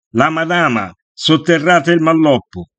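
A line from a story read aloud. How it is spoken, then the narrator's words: Sudden shout. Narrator (Italian): Improvvisamente qualcuno lanciò un grido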